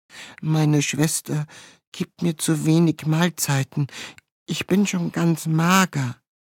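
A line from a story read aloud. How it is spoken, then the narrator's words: Pitiful voice. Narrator (German): sagte mit kläglicher Stimme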